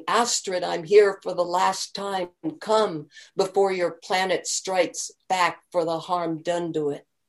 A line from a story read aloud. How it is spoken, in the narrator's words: She walked the shore shouting